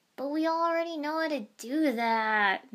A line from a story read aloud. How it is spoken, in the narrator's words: Naruto whined